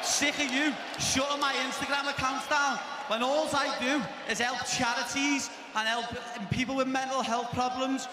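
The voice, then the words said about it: Thick Welsh accent. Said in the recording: “who's got a thick, I don't know if it's Irish or Welsh accent ... Oh, he's Welsh.”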